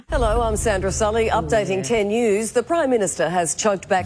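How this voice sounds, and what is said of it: Husky, sexy newsreader voice. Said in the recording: “Sandra Sully was known for having a very sexy ... husky ... voice.”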